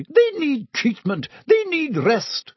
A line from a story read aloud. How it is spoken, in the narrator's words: sputtered Madame Pomfrey